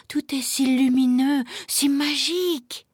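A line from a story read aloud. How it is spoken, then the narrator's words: Murmured. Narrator (French): murmura-t-il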